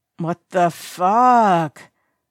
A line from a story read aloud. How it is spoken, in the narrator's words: Jiang groans